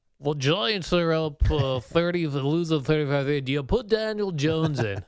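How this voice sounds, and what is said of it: Imitates a sports announcer's voice. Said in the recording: “doing a Bob Papa impersonation ... it's the announcer part and not me speaking. I did it a Bob Papa”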